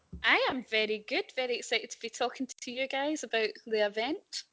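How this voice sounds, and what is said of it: Put-on posh accent instead of Glaswegian. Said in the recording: “you have totally dropped the Glasgow accent and gone for a posh one”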